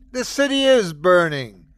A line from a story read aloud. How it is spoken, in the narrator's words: screamed Acer